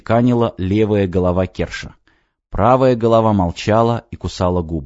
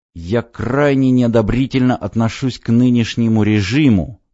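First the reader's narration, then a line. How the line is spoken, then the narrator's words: Through gritted teeth. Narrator (Russian): процедил сквозь зубы Джон Смит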